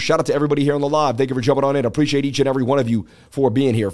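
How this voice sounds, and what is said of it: Strained, hoarse voice. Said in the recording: “I'm losing my voice. I live streamed for 4 hours yesterday.”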